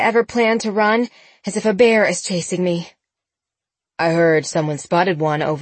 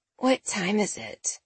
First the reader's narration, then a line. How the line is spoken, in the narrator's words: Sabrina mumbled